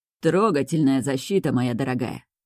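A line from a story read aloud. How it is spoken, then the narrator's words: Velvety, venomous, mocking. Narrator (Russian): Бархатный голос звучит ядовито, насмешливо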